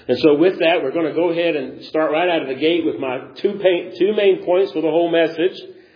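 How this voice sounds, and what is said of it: Sick, strained voice. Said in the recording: “I ended up getting a chest cold, which is the remnants of why my voice is doing whatever it's doing ... it's just the throat issue”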